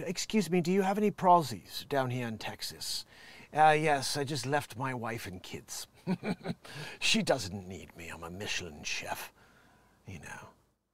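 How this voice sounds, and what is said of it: Put-on British accent. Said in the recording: “Apparently he's a Brit.”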